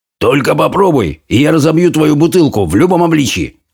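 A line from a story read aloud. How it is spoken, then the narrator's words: Barked. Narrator (Russian): рявкнул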